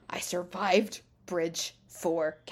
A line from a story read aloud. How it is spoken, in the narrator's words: Kaladin growled